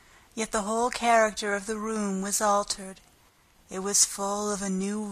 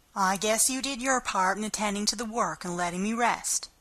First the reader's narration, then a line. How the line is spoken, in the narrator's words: said Marilla